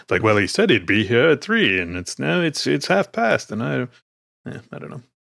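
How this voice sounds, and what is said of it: Imitates another person's voice. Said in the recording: “my terrible Cary Grant impression ... Yeah, it's not bad. You're all right.”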